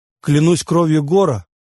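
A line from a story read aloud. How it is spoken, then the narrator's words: Shouting through laughter. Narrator (Russian): орал он сквозь смех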